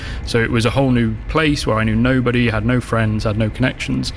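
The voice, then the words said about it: Northern English accent. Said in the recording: “if my accent doesn't give me away too much, I'm not from even this far south, I'm from further north of here”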